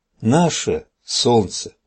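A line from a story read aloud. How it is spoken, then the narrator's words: Child's whisper turning joyful. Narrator (Russian): малыш зашептал и скоро радостно зазвенел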